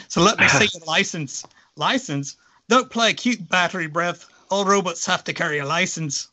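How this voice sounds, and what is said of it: Attempted Irish accent, cop voice. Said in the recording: “I was going to do a nice Irish accent, and I don't know that I can do it now ... I don't know that that was Irish”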